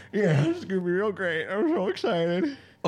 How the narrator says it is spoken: Robbie just like sobbing but smiling, going

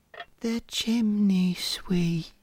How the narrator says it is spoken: whispers, already half asleep

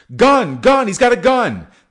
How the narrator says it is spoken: They shout

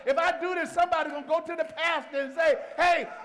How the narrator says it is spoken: Wayne shouted too loud

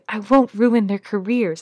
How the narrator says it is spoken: I snap harshly

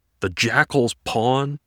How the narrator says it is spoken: Peter yells

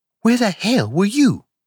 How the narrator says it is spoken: she cried

